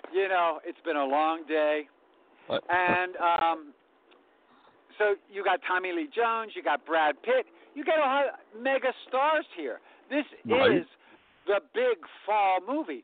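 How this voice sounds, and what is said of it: Southern American accent. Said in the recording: “my Southern accent when I start to roll everything at the end”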